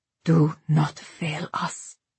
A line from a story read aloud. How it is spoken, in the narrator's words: he said quietly